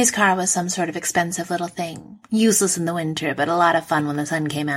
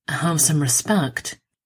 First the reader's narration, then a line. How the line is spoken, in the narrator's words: Steve said through clenched teeth